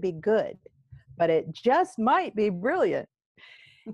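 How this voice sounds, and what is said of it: Usual voice. Nothing is said of it.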